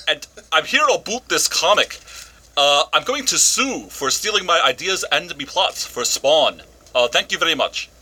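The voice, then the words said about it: Put-on Scottish accent. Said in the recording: “cannot do a Canadian accent, he's doing a Scottish one”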